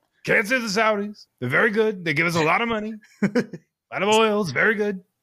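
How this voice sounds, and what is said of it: Impression of a U.S. president. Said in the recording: “You could be doing an impression of any U.S. president”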